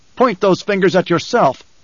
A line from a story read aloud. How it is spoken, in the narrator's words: Paul shouted